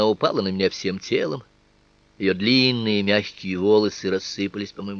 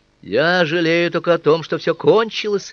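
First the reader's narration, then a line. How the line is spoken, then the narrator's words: Ardent exclamation. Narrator (Russian): воскликнул я так рьяно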